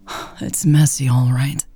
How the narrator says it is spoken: Lex sighed

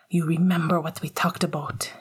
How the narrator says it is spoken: his mother hissed at him

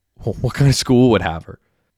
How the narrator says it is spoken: Derek scoffed

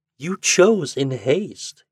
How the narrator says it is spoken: he said

